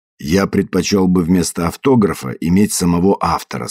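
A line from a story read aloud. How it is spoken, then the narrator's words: Plain. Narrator (Russian): сказал Уайт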